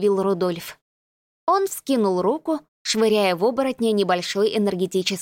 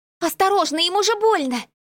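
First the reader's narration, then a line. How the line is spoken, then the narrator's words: Exclaimed. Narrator (Russian): воскликнула я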